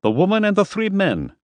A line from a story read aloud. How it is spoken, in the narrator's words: snapped